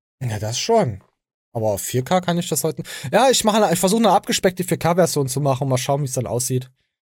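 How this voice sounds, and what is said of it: East German accent. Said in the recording (German): “Deine Scheißstimme, deine Oststimme. Das ist die Oststimme ist kein Sound. Das ist kein Soundeffekt”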